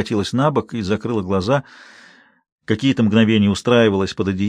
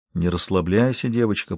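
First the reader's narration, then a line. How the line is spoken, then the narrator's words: Whisper. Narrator (Russian): прошептал он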